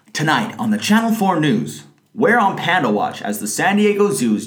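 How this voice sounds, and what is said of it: Standard American accent. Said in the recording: “vocal reel of my standard American accent.”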